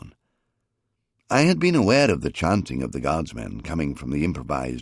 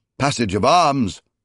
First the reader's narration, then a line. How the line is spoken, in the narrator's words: Zaras ordered at a bellow